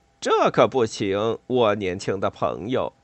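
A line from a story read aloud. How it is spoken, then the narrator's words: Amused. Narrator (Chinese): 莱特……笑了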